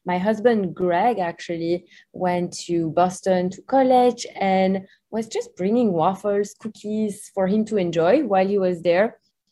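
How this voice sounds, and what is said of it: Belgian accent. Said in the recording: “As you can hear from my accent, I'm not from the US, so we're originally from Belgium.”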